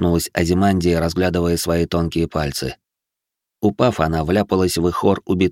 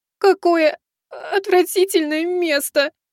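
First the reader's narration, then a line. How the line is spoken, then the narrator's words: Tearful complaint. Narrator (Russian): пожаловалась она плачущим голосом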